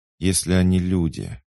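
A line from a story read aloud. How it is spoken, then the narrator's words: Gloomy. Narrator (Russian): мрачно изрекла Шейла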